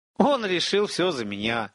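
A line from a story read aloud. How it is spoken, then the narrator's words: Laughing. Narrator (Russian): рассмеялся Эпика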